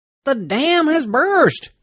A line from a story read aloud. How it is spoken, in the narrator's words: Saunders shouted